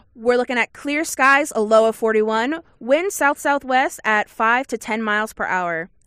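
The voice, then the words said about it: TV weather forecaster voice. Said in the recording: “let me put on my weather girl voice.”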